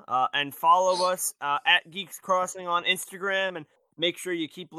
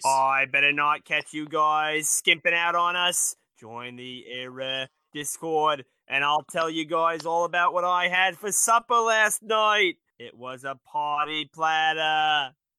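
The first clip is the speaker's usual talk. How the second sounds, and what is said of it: JFK impression. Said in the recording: “in your JFK voice”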